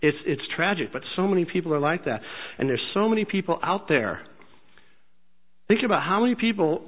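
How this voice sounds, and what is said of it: Usual voice. Nothing is said of it.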